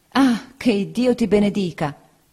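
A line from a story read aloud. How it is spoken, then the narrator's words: Exclaimed. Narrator (Italian): esclamò la signora Bezze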